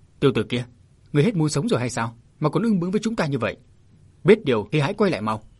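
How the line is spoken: Hasty resentful shout. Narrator (Vietnamese): Hai người nọ ngượng thành ra hận, vội quát

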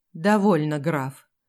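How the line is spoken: Dull lifeless voice. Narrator (Russian): потухшим голосом повторил Эдуард

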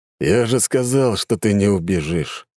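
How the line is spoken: Calm. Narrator (Russian): спокойно подходя, проговорил Кузнецов

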